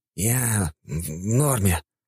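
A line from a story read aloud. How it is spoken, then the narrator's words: Exhaled words. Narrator (Russian): выдохнул Гермес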